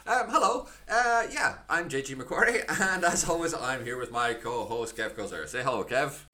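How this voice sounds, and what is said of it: Scottish accent. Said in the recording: “highly convincing Scottish accents, of which I would like to make it clear I actually possess one of”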